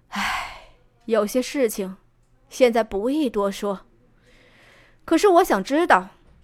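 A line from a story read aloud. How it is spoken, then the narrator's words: Soft sigh. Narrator (Chinese): 浮生良久，这才轻叹道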